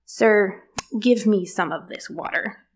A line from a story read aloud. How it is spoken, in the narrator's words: she says in an unimpressed tone